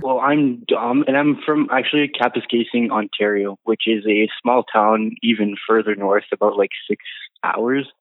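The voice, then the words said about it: Slight French accent. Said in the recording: “is French. So we have, you'll get to hear the little hints of the French accent.”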